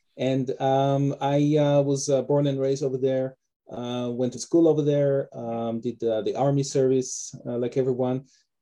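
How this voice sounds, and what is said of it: Israeli accent. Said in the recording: “originally I'm from Israel. That's also where my name and my accent come from.”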